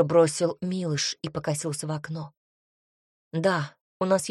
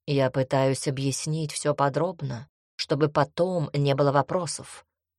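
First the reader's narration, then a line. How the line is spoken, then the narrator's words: Plain. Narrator (Russian): ответила магиня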